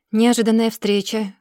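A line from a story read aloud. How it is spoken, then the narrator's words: Dry, barely patient. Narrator (Russian): сухо произносит он, голос на пределе терпения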